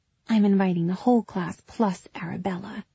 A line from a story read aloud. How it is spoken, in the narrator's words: murmured